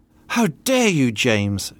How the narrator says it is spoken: exclaimed

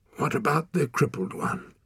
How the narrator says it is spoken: He asked hoarsely

